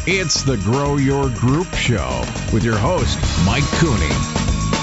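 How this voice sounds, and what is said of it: Deep male announcer voice. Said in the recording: “the man with the deep voice”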